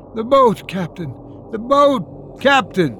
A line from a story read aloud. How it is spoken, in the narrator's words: abruptly I found myself shouting in a queer, frightened voice